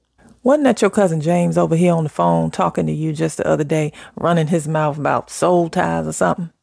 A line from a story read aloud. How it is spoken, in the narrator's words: She chuckled